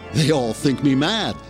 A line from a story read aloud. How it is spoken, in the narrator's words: the man giggled